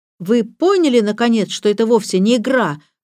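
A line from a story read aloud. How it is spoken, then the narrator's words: Exclaimed. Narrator (Russian): воскликнул Роберт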